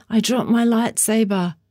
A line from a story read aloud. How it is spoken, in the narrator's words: Elmo ran, shouting